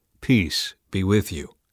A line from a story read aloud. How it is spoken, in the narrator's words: he said